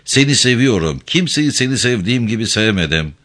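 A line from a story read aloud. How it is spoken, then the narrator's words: Flustered voice. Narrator (Turkish): dedi telaşlı bir sesle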